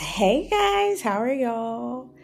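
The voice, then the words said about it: Country-sounding Southern greeting. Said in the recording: “that sounded so country.”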